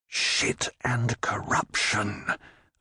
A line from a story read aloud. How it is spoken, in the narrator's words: Leon whispered softly